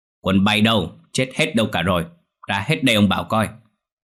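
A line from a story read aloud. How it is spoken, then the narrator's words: Deep, fierce shout. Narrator (Vietnamese): Lão Kiên lại dùng chất giọng ồm ồm hung tợn quát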